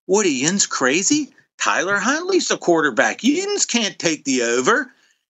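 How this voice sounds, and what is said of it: Pittsburgh Yinzer accent. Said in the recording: “in my Yinzer voice”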